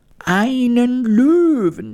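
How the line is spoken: Horrified scream. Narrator (German): schrie die Königin entsetzt

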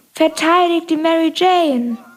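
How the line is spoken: Shouting voice. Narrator (German): eine Stimme schrie

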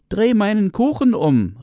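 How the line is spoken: Calling out. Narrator (German): rief es ihm zu

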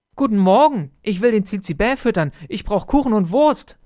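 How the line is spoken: Called out. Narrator (German): rief er

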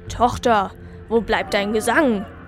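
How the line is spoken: Snapped. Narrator (German): schnauzte er

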